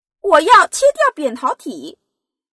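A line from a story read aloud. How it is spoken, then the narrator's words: Little princess shouting. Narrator (Chinese): 小公主大叫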